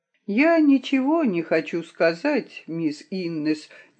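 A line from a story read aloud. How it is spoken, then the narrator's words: Uncertain. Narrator (Russian): неуверенно говорил он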